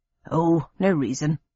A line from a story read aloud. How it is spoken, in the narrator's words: muttered my father, with feigned innocence